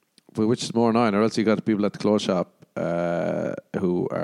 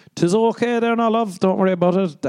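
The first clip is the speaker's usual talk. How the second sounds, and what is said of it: Exaggerated Irish accent. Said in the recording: “I'm Irish. ... That's just my accent.”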